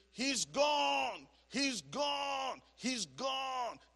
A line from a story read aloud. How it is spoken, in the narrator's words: There was a big scream